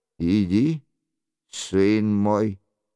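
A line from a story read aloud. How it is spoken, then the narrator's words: Calm reply. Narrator (Russian): спокойно отвечала ему Екатерина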